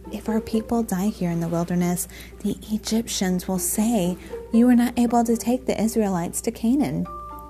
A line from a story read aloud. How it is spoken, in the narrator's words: Moses pleaded